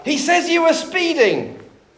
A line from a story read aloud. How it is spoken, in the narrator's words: The old man yelled back